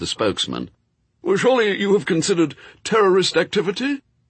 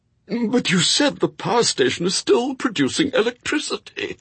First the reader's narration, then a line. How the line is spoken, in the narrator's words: gasped the interviewer